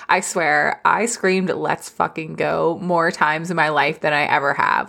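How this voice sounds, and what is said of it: Tired, strained voice. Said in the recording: “my voice is so tired because I was screaming so much”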